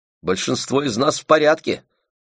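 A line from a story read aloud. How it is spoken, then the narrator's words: Shouting. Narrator (Russian): выкрикнула милашка Терри Пикфорд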